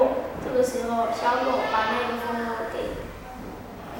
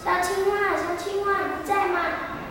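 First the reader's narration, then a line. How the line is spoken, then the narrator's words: Calling into a hollow. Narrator (Chinese): 小男孩对里面喊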